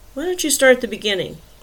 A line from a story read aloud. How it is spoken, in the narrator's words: She sighed deeply